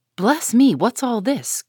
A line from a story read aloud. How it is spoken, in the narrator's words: cried the old lady